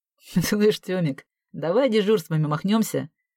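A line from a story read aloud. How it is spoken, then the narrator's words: Laughing. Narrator (Russian): смеясь сказал Лёва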